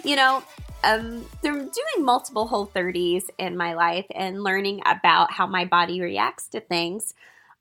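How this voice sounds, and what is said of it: Stuffy, congested voice. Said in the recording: “Excuse my voice if I sound a little stuffy.”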